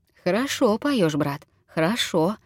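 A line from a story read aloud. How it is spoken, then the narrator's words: Gentle, affectionate. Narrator (Russian): ласково заметил Николай Иванович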